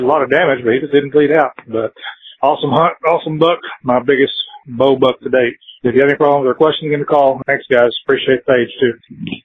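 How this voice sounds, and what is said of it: Excited, adrenaline-charged voice. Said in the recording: “he was all jazzed up still. Did you hear it? You can hear it in his voice. ... It's the adrenaline that you can hear in the voice.”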